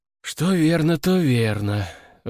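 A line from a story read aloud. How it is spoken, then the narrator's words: Sighing. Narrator (Russian): вздохнул Александр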